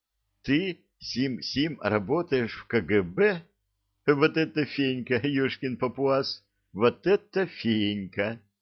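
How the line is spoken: Hysterical laughter. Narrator (Russian): Изольда начала истерически смеяться

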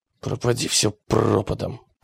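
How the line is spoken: Muttered. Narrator (Russian): пробормотал он

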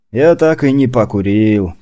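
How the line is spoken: Sad sigh. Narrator (Russian): печально вздохнул Ашот

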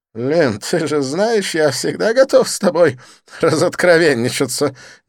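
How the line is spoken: Irrepressible giggle. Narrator (Russian): не сдержавшись, хихикнул Дидье

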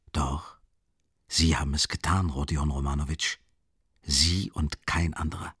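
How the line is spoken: Stern, certain whisper. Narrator (German): flüsterte Porfirij streng und überzeugt

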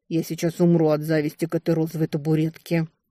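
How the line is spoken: Muttered. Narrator (Russian): Эзра буркнула

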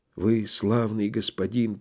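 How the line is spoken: Trembling, gasping whisper. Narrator (Russian): прошептал он, дрожа и хватая воздух

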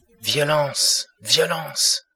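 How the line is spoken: Cry out. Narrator (French): s'écria-t-il

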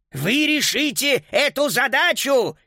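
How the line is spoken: Shouted. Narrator (Russian): крикнул господин Шнитлих

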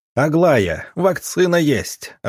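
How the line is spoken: Joyful shout. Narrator (Russian): радостно закричал доктор

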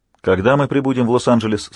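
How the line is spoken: Plain. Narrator (Russian): спросил Майкл

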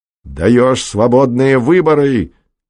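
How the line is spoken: Shouting. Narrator (Russian): кричал Пеганов

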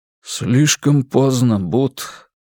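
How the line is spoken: Gloomy. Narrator (Russian): мрачно ответил Туки

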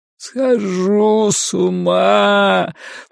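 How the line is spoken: Groaning. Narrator (Russian): простонал Ларри

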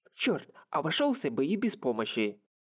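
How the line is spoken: Angry, spat out. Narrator (Russian): Зло сплюнул он

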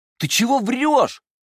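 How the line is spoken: Two voices crying out. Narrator (Russian): вскрикнули двое учеников Пика Зелени

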